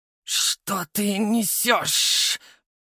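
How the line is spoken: Hissing in strange voice. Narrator (Russian): прошипел я не своим голосом

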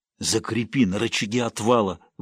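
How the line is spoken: Old man, breathless. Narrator (Russian): выдохнул старик

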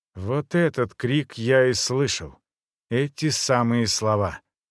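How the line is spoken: Completely calm. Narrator (Russian): он совершенно спокойно произнес

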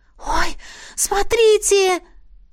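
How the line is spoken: Sudden exclamation. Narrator (Russian): неожиданно воскликнула Беата

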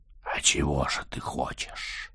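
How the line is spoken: Hoarse breathy question. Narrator (Russian): с хриплым придыханием спросила она

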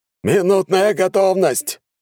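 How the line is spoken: Shouting into microphone. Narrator (Russian): прокричал стартер в микрофон

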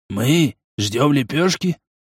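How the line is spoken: Wary whisper. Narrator (Russian): говорил опасливым шепотом

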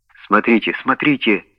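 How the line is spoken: Whispering. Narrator (Russian): прошептал Уэллс

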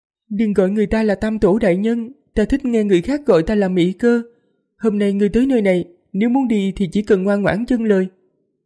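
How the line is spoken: Graceful smiling woman. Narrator (Vietnamese): Nữ tử kia mỉm cười duyên dáng, nói

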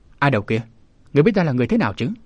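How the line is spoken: Shouted question. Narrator (Vietnamese): quát hỏi

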